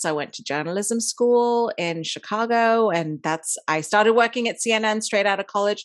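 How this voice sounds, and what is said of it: International English-schooled accent. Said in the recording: “everyone always asks about my accent. I was born in India. I grew up in Dubai and I went to an English school there. So that's why I speak the way I do.”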